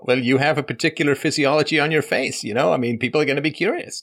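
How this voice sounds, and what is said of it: Speaks with an accent. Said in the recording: “I have an accent”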